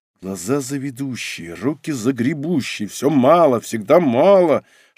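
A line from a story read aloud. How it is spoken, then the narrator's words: Whispered grumbling. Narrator (Russian): шепотом ворчал он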